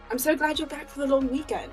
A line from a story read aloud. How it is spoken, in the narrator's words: Karen Scabby exclaims